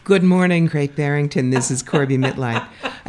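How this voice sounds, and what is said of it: Polished radio announcer voice. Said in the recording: “As you can tell from the progressive radio voice, yes, I too have done radio.”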